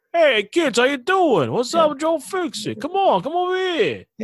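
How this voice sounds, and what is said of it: Put-on Italian-American tough-guy accent. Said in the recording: “You sound like a Guido.”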